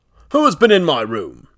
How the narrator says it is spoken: he cried

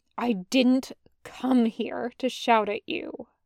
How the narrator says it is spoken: says, finally, in a quieter voice

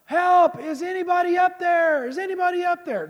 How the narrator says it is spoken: he's yelling

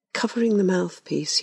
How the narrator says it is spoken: he whispered to me

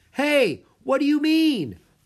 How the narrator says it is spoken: Drake yelled

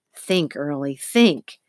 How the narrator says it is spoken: she said fiercely to herself

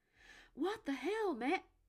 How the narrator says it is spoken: Nick sputtered, but he didn't get out the phrase

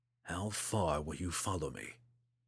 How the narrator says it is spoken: Drizzt whispered into the morning breeze

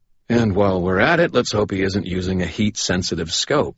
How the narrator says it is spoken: I said dryly

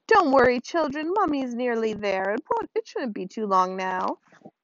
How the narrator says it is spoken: chirped the witch

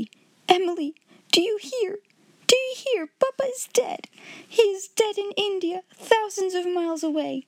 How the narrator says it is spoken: she cried out wildly

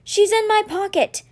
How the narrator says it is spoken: Henry yelled from the other side of the ship

